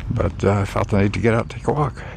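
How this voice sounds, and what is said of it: Slightly off, phlegmy voice. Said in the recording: “my voice is a little off today. Probably get worse before it gets better. ... Mucositis has set in, so I've got a lot of phlegm, a lot of really thick saliva.”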